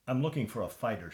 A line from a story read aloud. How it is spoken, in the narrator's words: she said